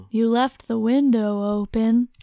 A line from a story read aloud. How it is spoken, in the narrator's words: the husky voice purred